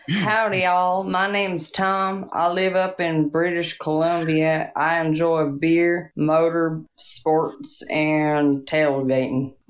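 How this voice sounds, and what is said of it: Poor attempt at Texas accent. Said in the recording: “let's do Texas ... And that's a Texas accent? ... That was really bad.”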